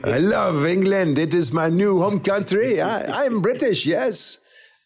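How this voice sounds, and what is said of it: Put-on French accent. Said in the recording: “they can never fix that stupid French accent”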